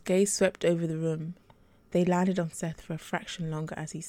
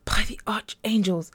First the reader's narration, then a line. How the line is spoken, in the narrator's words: Matthias said angrily